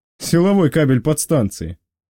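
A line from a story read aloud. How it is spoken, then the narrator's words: Chuckle. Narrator (Russian): хохотнул боцман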